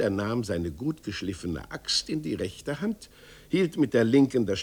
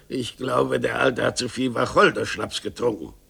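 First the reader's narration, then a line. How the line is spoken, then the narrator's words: Murmured. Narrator (German): murmelte er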